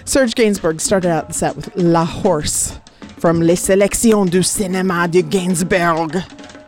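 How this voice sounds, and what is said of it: Exaggerated French accent. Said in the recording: “I over-Frenched that ... Over-Frenchified it ... I went all like Pepe Le Pew extra in my accent.”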